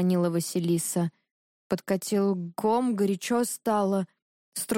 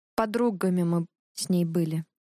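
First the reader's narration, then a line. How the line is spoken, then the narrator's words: Dry, curt. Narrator (Russian): Гнева добавила сухо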